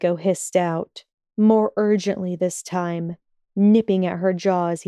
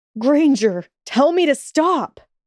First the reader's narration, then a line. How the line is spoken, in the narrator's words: screamed